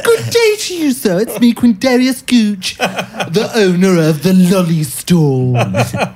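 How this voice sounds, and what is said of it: Put-on British accent. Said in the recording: “he's British”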